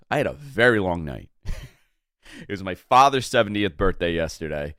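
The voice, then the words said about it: Hoarse voice. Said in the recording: “I'm a little hoarse today. You could hear it in my voice.”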